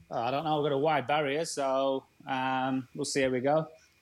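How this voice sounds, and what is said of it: English accent. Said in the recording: “What accent is this, Danny? ... English.”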